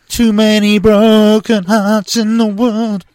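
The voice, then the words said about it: Imitates another person's singing voice. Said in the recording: “that impression ... Jason Donovan”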